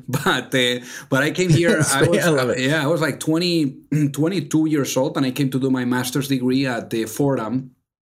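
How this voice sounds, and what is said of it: Spanish accent speaking English. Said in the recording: “as you probably hear on the accent ... from Spain ... the Spanglish kicks in”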